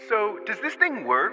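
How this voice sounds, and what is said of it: Electronically altered voice. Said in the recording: “I activated the voice changer ... that's weird”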